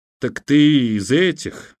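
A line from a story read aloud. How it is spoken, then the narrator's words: Disappointed sigh. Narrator (Russian): разочарованно вздохнул длинноволосый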